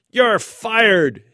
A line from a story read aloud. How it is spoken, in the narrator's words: he screamed